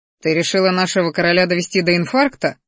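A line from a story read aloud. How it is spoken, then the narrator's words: Chuckling. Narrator (Russian): хохотнул водный маг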